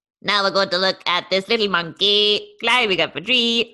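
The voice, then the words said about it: Sing-song imitation of another person's voice. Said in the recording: “good David Attenborough impression? ... I don't think he normally sort of like turns into song as much”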